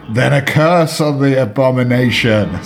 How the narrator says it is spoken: screamed Eldritch

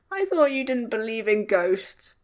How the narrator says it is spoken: said Tom, sounding quavery and unsteady

